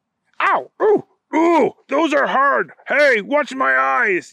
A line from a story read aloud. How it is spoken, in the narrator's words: yelled the other bad guy